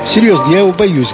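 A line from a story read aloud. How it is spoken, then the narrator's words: Laughing, delighted. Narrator (Russian): говорил он, смеясь, и как бы радуясь этой боязни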